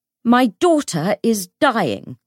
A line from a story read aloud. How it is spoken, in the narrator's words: Bridgestock shouted, suddenly enough to jolt the room